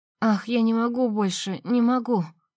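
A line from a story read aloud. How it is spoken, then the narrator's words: Moaning. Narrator (Russian): стонала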